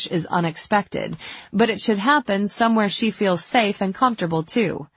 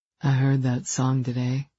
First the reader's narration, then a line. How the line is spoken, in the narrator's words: he murmured